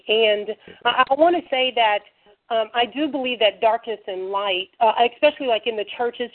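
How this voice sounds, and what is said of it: Sick-sounding voice. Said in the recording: “excuse my voice. ... getting over this cold”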